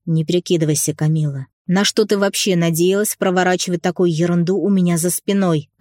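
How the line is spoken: Growling. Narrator (Russian): Рыкнул я

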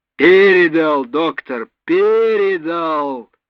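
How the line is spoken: Full-lung shout. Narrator (Russian): во всю силу легких выкрикнул радист

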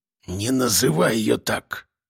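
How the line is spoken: Hiss. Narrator (Russian): прошипел Жорич

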